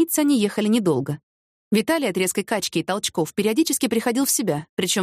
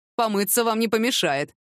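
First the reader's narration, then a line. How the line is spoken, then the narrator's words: Snorting smirk. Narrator (Russian): хмыкнул водитель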